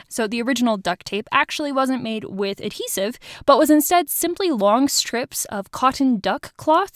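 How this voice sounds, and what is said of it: Speaks with a noticeable accent. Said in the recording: “I know it's hard with my accent”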